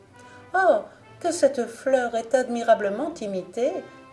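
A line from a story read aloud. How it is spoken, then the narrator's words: Chorus of exclamations. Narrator (French): s'écrièrent en même temps toutes les dames d'honneur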